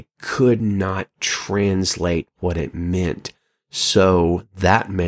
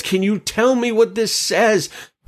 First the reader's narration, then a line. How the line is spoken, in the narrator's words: the king shouts out to his diviners and mediums and Chaldeans and wise men and says